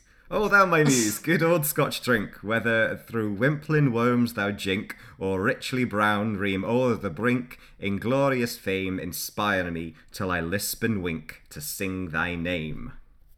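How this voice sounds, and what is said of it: Attempted Scottish accent. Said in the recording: “attempting something that sounds a bit Scottish ... I think you're doing a very good job.”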